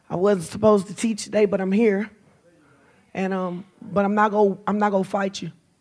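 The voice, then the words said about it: Scratchy, strained voice. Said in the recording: “my voice is a little scratchy”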